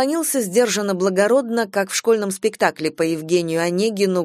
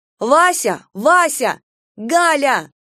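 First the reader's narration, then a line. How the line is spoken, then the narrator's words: Shout after someone. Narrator (Russian): крикнула ему вслед Таня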